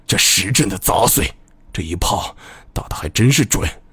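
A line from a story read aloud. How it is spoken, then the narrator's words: Quiet muttering. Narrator (Chinese): 伊次普……小声嘀咕道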